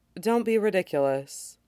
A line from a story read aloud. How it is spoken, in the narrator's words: Troa said